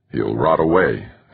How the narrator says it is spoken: Hasrabal grumbled

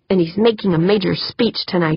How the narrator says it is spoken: Holly grumbled

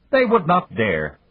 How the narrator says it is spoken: Babunia snapped

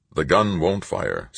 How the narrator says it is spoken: Stoner said

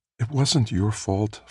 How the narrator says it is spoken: Felicia said soothingly

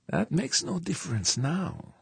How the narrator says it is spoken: Dieterling said, dropping his voice almost to a whisper

